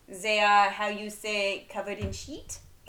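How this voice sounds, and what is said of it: Put-on French accent. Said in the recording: “I'm going to have to do a terrible accent ... you have to use the accent ... That was actually good, though.”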